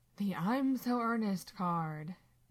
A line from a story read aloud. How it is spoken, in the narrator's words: Dean sighs